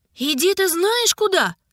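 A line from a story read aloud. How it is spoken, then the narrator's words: Shouted. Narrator (Russian): крикнула Ида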